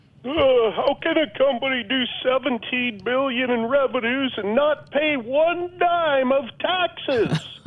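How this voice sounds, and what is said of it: Bernie Sanders impression. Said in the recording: “That was my Bernie Sanders impersonation. ... That was a good try. I wasn't sure if it was Bernie Sanders or Elizabeth Warren.”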